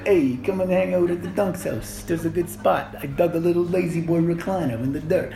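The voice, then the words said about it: Silly rabbit character voice. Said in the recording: “that's how rabbits sound, by the way. That's my impression of a rabbit.”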